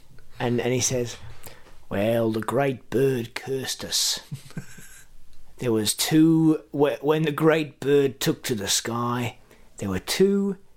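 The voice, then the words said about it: Poor attempt at New Zealand accent. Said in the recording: “That's not a very good New Zealand accent.”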